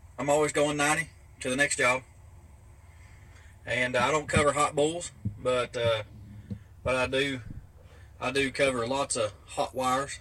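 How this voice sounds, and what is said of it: Southern US accent, like Alabama. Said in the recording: “I love his accent, by the way. ... I love that accent. It's like borderline. Are you in Alabama?”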